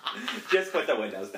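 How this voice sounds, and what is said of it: Imitates another person, Newfoundland-ish accent. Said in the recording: “I love your imitation of Leon. It's really good. It's nothing like Leon ... It's got like a Newfie vibe to it. It's like if Leon grew up in Newfoundland.”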